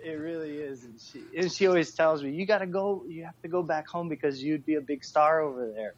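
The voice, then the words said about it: American English accent. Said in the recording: “you have that American accent going on ... your accent ... I lost a lot of, like, the Filipino inflection on English words ... you sound so American”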